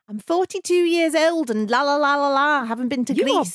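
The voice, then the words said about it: Imitated Shirley Valentine accent. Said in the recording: “You are brilliant an accent”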